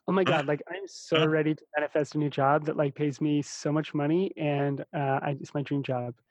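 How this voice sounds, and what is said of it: Put-on LA valley-girl voice. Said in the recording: “do the LA voice.”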